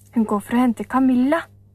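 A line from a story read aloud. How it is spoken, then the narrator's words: Overlapping excited shouts. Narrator (Norwegian): ropte Storpeder og Rasmus i munnen på hverandre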